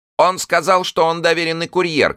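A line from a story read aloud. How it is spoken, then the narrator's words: Shouting voice. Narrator (Russian): кричал один голос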